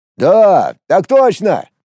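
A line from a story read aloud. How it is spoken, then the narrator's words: Ragged group shout. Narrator (Russian): В разнобой крикнули дачники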